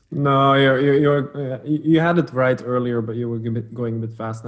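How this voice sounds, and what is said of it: Flemish Belgian Dutch accent. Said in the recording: “your accent ... I speak Dutch as a mother tongue. But I'm not Dutch as in from the Netherlands. I'm from Belgium, from Flanders”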